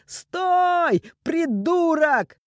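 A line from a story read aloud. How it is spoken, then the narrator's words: Shouting. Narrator (Russian): кричал похититель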